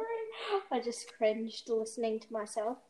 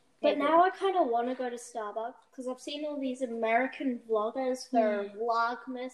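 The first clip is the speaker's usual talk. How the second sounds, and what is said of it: Bad put-on American accent. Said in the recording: “my American accent was just so bad right then”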